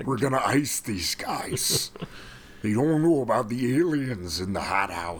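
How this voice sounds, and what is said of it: Imitates another person's voice. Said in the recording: “your impression... my impression of Jesse Ventura”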